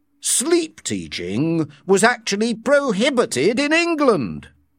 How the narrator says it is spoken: Mustapha Mond said indignantly

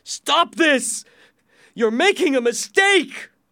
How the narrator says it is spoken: shouted

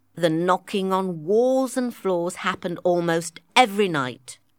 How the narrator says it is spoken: said Playfair

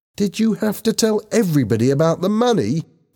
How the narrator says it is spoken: she asked angrily

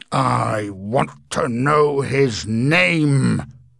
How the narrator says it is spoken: growled Mr

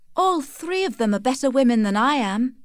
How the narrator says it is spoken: exclaimed Tess

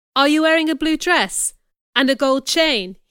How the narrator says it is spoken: asked excitedly

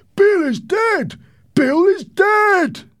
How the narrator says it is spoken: a man shouted from the window

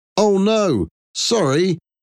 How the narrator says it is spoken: shout

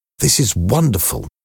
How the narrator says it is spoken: I whispered

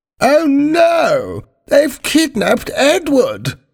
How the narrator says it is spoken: cried the Queen

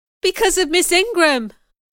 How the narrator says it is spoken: I cried

